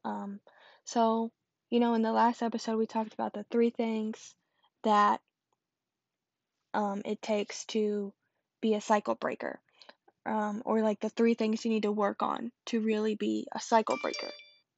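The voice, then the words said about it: Sick, weird-sounding voice. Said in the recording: “I am feeling a little sicky today, so sorry if my voice sounds kind of weird.”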